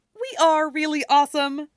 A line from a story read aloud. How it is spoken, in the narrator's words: Stiles says cheerfully